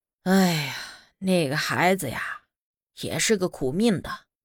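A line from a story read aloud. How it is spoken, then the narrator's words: Sighing. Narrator (Chinese): 村长叹了一口气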